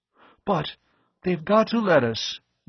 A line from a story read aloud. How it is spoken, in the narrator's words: Weeks exclaimed